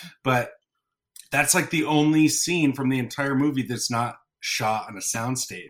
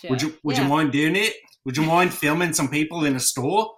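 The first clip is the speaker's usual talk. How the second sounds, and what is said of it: Put-on New Zealand accent. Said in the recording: “spot on New Zealander accent... I was going for Australian, but I messed it all up.”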